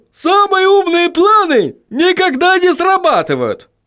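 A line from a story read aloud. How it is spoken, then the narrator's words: Exclamation. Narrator (Russian): воскликнул он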